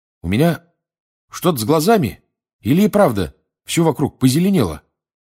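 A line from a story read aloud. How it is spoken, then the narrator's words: Exclaimed. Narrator (Russian): воскликнул Рон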